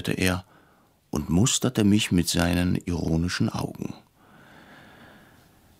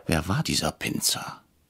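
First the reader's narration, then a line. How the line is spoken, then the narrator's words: Whisper. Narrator (German): flüsterte ich Herrn Bretscher zu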